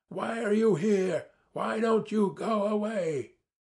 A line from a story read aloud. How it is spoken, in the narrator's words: my shouting